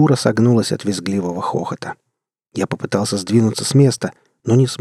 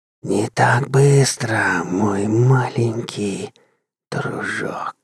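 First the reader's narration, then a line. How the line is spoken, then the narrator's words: Contemptuous witch's hiss. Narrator (Russian): прошипел презрительный голос ведьмы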